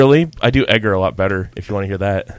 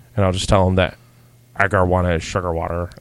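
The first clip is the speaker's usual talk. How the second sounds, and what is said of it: Bad impression of a movie character. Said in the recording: “That is the second worst impression you've ever done.”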